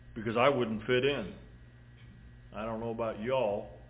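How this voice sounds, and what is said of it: Put-on Southern drawl. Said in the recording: “my southern drawl”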